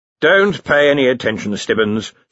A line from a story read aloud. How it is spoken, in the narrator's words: said Ridcully wearily